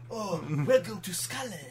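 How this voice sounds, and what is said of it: Put-on Scottish accent. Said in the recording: “Scottish ...! ... Oh, I can do the accent. ... You nailed it! ... That was pretty good.”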